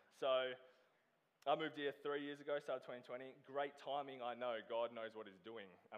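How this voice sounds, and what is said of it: Australian accent. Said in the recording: “I am originally from Australia. That accent,”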